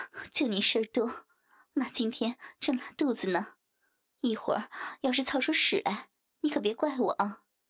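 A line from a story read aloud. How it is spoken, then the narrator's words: Resigned, laughing scold. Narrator (Chinese): 徐颖无奈地叹了口气，笑骂道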